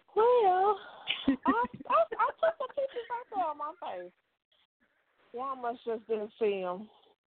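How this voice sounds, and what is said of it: Slight Southern US accent. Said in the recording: “you sound like you're from down south... You got a little bit of an accent”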